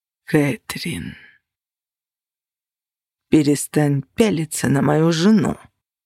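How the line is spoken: Barely restrained furious growl. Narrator (Russian): С еле сдержанной яростью прорычал Костя

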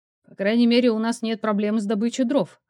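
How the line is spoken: Scoffing. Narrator (Russian): хмыкнул я

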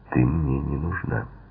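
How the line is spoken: Icy tone. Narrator (Russian): сказал он ледяным тоном

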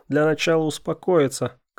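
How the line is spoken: Shout. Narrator (Russian): крикнул Феликс

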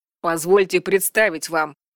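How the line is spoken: Sharp growling interruption. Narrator (Russian): резко оборвал его рычащий голос Орве

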